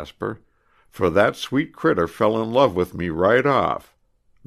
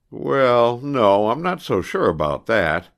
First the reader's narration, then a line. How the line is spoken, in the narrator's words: replied Heywood sadly